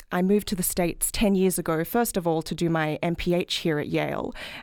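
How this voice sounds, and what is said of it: Australian accent. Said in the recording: “as you can probably tell from my accent, I'm not from this country, I'm from Australia.”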